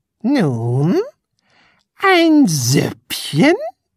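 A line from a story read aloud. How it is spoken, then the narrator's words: Close growl. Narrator (German): knurrte Tunichgut ganz dicht neben ihn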